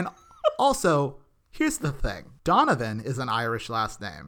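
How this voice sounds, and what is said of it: Usual voice. Nothing is said of it.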